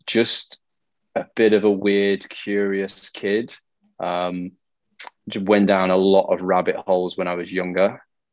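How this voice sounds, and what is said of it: English accent. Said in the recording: “English accent, born in the UK”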